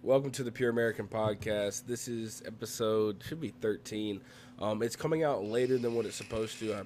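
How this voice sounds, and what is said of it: Sick-sounding voice. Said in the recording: “if you can't tell by my voice, I am sick.”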